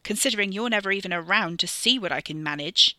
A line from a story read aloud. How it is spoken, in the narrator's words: she spat at him